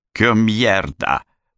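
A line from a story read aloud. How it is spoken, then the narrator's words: Growling. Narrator (Russian): прорычал он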